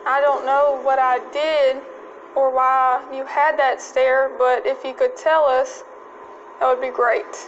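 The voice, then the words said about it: Southern accent. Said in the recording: “That southern accent.”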